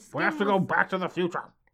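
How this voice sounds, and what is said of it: Imitates another person's voice. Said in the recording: “that impression”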